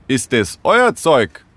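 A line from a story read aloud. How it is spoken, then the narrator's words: Calling out. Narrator (German): rief er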